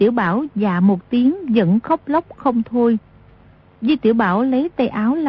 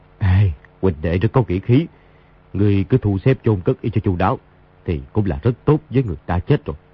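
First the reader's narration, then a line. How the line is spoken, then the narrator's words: Sighing. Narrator (Vietnamese): Đa Long thở dài nói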